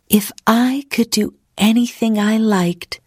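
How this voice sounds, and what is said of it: Dreamy voice. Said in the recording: “in a dreamy voice.”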